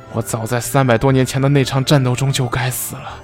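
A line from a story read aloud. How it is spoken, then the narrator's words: Regretful sighing. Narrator (Chinese): 师傅叹息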